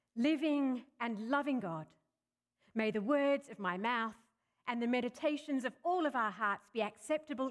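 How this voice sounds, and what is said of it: Australian accent mixed with English. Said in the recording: “I'm an Aussie. I'm an Australian by birth. But there's also a lot of English mixed up in my accent ... my funny accent”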